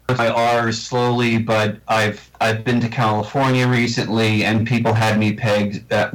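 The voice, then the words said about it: Long Island New York accent. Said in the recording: “I've tried incredibly hard to not sound like I come from Long Island, New York ... I tried so hard to work on my accent, and it's I guess it's part of my DNA now ... I drop my R's”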